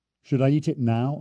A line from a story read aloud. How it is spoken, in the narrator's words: asked